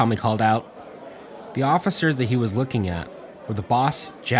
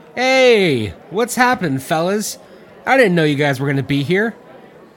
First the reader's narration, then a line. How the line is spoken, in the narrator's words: Mickey called out in a loud voice